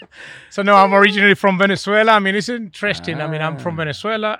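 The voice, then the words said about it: Venezuelan Spanish accent. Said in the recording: “I'm from Venezuela. Oh, you know, with this accent, right?”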